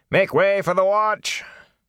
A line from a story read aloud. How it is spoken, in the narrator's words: shouting